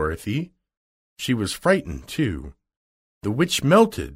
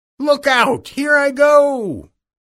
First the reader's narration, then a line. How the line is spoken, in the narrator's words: cried the witch